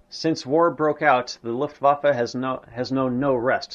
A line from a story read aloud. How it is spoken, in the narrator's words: said Goering